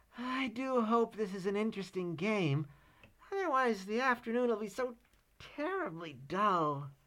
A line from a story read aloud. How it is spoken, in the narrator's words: he remarked wistfully